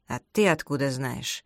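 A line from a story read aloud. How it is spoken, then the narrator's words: Very rude. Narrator (Russian): Этот вопрос прозвучал совсем грубо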